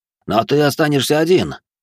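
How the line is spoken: Indignant exclamation. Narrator (Russian): возмущенно воскликнул Спад

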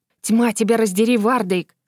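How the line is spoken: Hissed. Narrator (Russian): зашипела она

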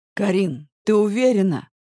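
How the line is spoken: Hoarse question. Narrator (Russian): хрипло спрашиваю я

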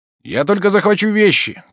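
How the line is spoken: Shouted. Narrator (Russian): крикнул

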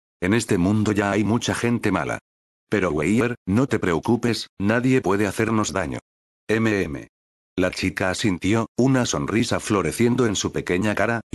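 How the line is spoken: Soft. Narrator (Spanish): La chica vestida de verde dijo suavemente

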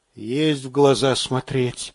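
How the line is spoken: Near whisper. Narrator (Russian): тоже почти шепотом отозвался сержант

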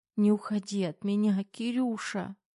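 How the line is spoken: Young woman sobbing. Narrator (Russian): рыдания любимой девушки

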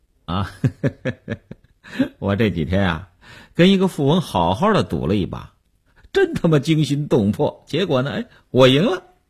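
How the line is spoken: Light laugh. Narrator (Chinese): 刘文庆笑笑说

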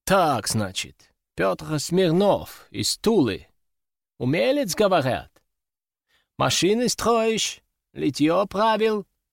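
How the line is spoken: Question with noticeable accent. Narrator (Russian): Спросил он с заметным акцентом

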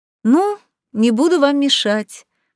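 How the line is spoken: Exaggeratedly cheerful chirp. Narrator (Russian): Преувеличенно радостно прощебетала

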